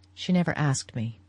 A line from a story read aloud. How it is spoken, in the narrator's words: he said, in a low voice